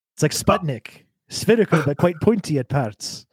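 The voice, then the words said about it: Good Scottish accent. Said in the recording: “You do a good Scottish accent.”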